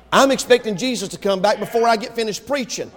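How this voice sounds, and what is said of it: Very fast preaching delivery. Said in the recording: “why I'm talking so fast.”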